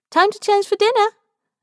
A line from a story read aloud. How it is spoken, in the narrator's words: she chirps